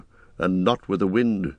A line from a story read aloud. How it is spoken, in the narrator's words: muttered Aragorn